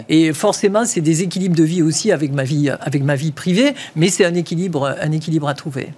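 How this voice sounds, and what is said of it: Sing-song southwestern French Toulouse accent. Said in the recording (French): “avec mon accent, je suis un peu démasqué facilement ... je suis toulousaine ... cet accent euh, chantant et ça rappelle, ça rappelle les cigales ... je suis du sud-ouest”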